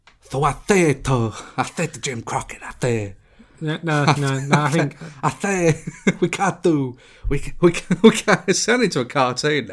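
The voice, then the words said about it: Impression sounding like Sylvester the Cat. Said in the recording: “his impression ... Sylvester the cat. ... that was terrible”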